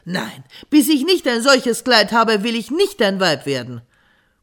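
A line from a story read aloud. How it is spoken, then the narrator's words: Calling out. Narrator (German): rief sie ihrem Bräutigam zu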